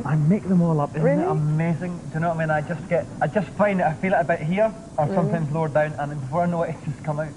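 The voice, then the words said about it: Rolling, lilting accent. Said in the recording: “the rolling lilt of my accent”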